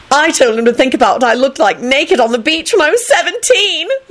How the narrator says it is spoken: Elizabeth shouted

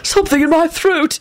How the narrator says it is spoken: he gasped out

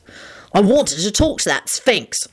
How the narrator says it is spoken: Lupin snarled back

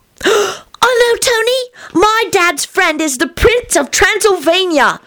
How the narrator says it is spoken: Teddy shrieked delightedly

